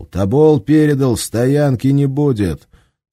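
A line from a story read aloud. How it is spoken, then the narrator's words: Shouted. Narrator (Russian): командир экипажа крикнул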